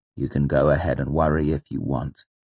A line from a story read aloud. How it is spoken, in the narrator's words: Coates said dryly